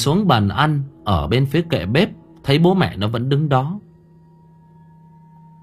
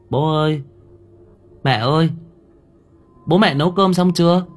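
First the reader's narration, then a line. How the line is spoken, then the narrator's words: Hungry little girl, trembling call. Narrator (Vietnamese): Cơn đói thôi thúc, con bé run run miệng gọi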